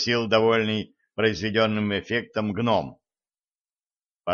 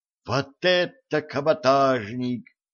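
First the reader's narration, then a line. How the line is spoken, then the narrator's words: Joyful whoop. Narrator (Russian): радостно ухнул Джим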